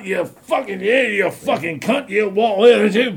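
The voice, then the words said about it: Drunken, slurred Scottish accent. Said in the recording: “he was from Scotland... he had a pretty understandable accent until he had a bottle of vodka in him”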